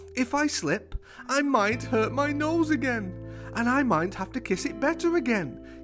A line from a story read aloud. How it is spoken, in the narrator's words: giggled Max